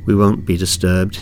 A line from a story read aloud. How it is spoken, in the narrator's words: he said in a flat North London accent